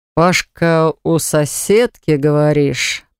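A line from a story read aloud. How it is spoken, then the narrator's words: Drawled. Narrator (Russian): протянул он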